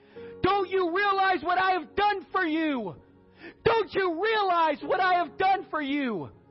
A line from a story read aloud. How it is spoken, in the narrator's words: he shouted out above the noise